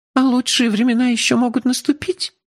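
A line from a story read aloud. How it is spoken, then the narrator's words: Girl's trembling question. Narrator (Russian): дрогнувшим голосом спросила девушка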